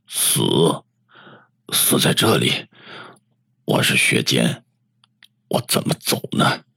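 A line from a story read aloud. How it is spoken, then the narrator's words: Low voice, laughing. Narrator (Chinese): 他笑了，低声的说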